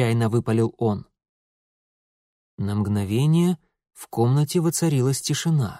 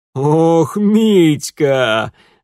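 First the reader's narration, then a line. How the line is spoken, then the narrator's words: Groaning through laughter. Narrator (Russian): Вытирая набежавшие от смеха слезы, наконец простонал он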